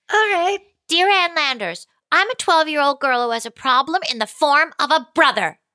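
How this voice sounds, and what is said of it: Polite high-pitched girl's voice. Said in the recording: “I got to put the voice. I got to do comedy podcast, polite, high voice.”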